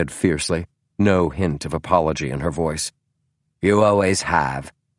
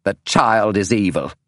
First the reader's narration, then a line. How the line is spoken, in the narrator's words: snapped Irene Adler